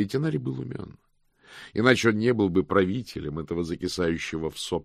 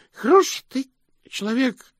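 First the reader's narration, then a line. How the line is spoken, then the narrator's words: Drunken hiccuping speech. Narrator (Russian): проикал Слыпень, неуверенно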